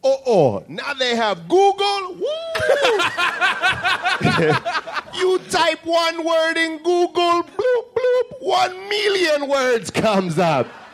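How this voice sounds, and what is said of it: Haitian accent, elderly spaced-out man. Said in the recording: “My dad is my favorite accent to do. My dad is from Haiti, and he's like 100 years old and deaf in one ear and super spaced out.”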